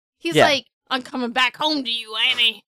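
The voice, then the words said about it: Imitates a character's voice. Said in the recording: “That's a perfect Briscoe impression. I like that a lot. That was really impressive.”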